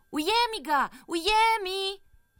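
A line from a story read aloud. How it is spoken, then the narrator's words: Shouting. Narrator (Slovenian): je zavpil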